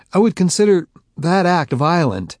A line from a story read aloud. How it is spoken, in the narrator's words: I stammered